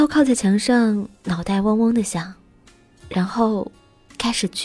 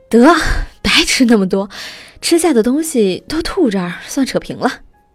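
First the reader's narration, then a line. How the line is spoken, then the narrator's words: Panting. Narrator (Chinese): 豆豆喘着气儿说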